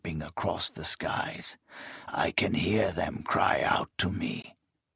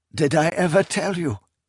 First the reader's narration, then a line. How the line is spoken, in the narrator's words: Kelmomus said, his voice cracking with heartbroken pride